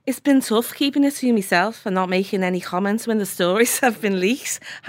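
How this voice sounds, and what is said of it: Put-on Liverpool accent. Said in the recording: “I'm going to do a Liverpool. Does she have a Liverpool accent?”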